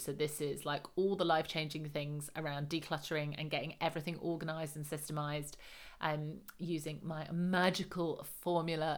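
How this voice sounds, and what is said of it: Strained voice, losing voice. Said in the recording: “Can you tell I'm losing my voice? I'm doing so many podcast recordings today.”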